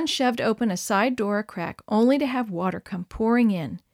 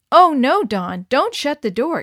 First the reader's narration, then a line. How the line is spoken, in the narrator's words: exclaimed Mrs